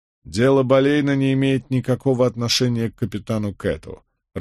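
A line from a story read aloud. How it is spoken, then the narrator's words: Irritated. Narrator (Russian): раздраженно покачал головой Эдвард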